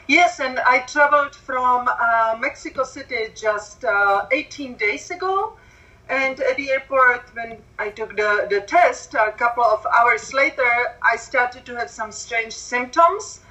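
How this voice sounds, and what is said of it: Heavy Czech accent. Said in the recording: “I have very heavy accent. Actually, I'm from Czechoslovakia originally”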